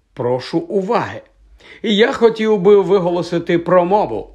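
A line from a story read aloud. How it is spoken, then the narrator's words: Loud. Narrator (Ukrainian): голосно сказав майже безголовий Нік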